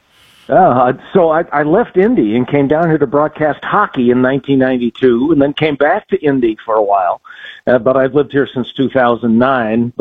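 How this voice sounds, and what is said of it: Polished radio announcer voice. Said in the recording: “That's a radio voice if I ever heard it.”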